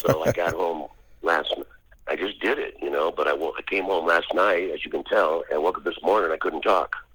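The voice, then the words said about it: Hoarse, strained voice. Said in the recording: “hoarse today. I've got laryngitis now. You can tell my voice is shot ... I trashed my vocal cords”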